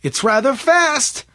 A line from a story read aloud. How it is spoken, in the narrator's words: shouted April over the sputtering of the motor